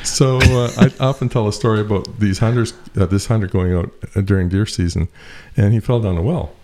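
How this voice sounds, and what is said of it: Eastern Canadian accent. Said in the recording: “I come from Eastern Canada, eh? ... I thought I heard that accent, eh?”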